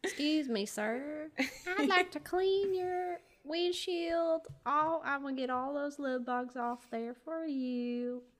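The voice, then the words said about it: Put-on accent, British or Southern. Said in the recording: “why am I doing a British accent? ... It'd be more of a southern accent.”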